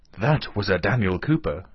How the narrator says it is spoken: exclaimed Marya Dmitrievna, puffing heavily

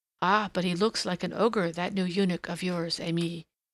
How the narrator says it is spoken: murmured one of the little Turks

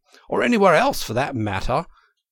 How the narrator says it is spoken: cried Toad boisterously

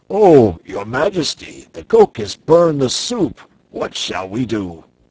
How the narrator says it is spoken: one of the giant servants exclaimed

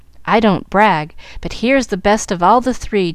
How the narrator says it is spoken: chuckled Jack, trying to look brave and gay

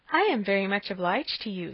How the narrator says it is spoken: said Emma, laughing again

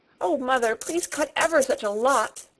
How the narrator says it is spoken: begged Pin, sniffing valiantly

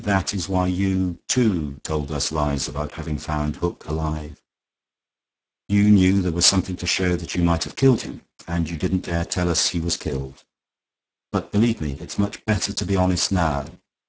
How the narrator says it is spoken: went on Fisher smoothly

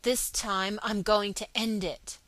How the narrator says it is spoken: he spoke aloud and through his teeth

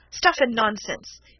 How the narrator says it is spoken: he exclaimed angrily

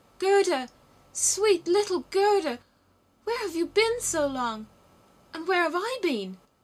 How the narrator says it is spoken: He wept so much shouted

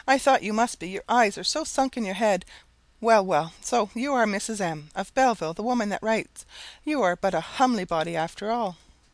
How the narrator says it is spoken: exclaimed she

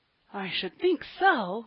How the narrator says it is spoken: groaned Polly

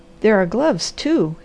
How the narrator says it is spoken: exclaimed the Harvester

